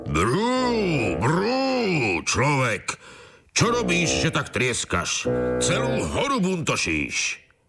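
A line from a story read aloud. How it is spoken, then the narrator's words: Roared. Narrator (Slovak): Zreval som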